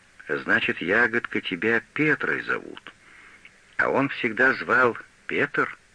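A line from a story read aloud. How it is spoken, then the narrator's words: Old woman, plain. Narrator (Russian): старуха сказала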